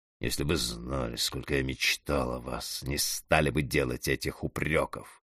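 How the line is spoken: Answered through gritted teeth. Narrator (Russian): Алексей Алексеевич ответил сквозь зубы

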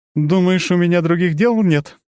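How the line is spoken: Sobbing goddess. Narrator (Russian): богиня всхлипнула

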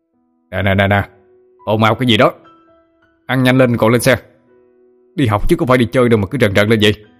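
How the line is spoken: Stern teacher's shout. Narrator (Vietnamese): thầy Thành phải đập bàn quát lên để giữ trật tự

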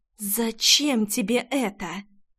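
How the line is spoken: Hiss. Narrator (Russian): Зашипела девушка

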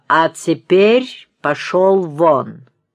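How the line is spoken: Very loud. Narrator (Russian): говорю очень громко

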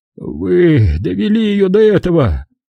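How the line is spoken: Groan. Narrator (Russian): простонал Симмонс

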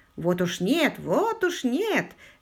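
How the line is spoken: Cheerful reply. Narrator (Russian): весело откликнулся ветеран

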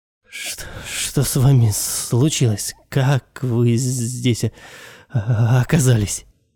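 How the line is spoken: Trembling voice. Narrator (Russian): Дрожащим голосом обратился

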